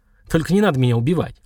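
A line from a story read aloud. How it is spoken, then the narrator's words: Mocking snort, man. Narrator (Russian): усмешливо хмыкнул мужчина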